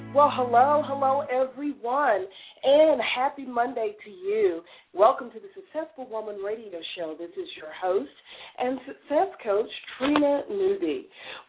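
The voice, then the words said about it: Slightly hoarse voice. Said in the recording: “I've got a little bit of a cold... you may have noticed a little hoarseness going on with my voice... that's what happens when you have a sinus infection and two colds back-to-back”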